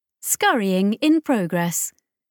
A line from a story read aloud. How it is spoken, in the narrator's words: the translation chirped